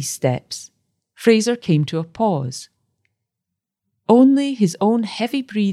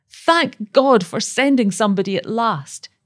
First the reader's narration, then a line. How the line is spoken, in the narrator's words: she cried passionately